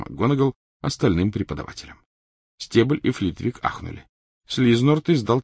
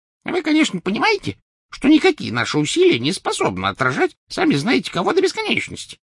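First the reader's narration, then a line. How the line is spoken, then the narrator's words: Squeaky. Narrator (Russian): пропищал Флитвик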